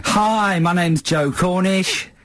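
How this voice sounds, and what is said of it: Put-on radio presenter voice. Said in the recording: “doing that voice ... just a sort of radio voice.”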